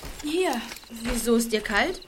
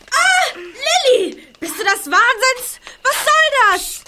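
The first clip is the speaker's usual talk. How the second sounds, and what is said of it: Shouting in alarm. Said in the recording (German): “schrei doch nicht so”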